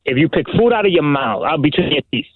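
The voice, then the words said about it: New York accent. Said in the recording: “You have a very distinct voice. You have that New York accent.”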